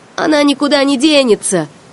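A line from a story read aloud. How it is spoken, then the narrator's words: Shouted. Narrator (Russian): крикнул он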